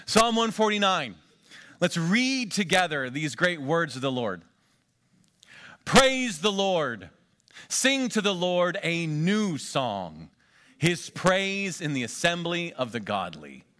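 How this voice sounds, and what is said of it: Rough, deep preacher-like voice. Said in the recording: “coughing ... Gives me a good preacher voice.”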